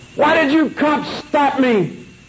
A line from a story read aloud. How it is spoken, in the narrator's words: the guy that was standing on the cement suddenly screamed